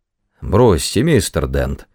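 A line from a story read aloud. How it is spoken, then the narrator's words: Glum droning. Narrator (Russian): уныло бубнил мистер Просер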